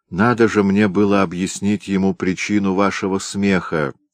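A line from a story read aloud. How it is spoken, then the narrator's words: Plain. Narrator (Russian): сказала девушка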